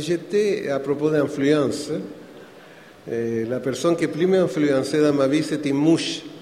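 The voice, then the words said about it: Non-native accent speaking French. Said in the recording (French): “pour qu'on s'habitue à mon accent. Est-ce que vous me comprenez, mon français?”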